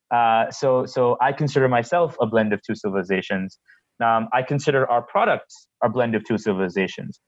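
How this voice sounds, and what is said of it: American accent. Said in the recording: “he's got this American accent”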